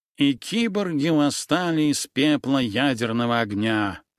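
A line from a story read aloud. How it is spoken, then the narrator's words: Nasal voice. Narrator (Russian): мелькнула у меня в голове гнусавая фраза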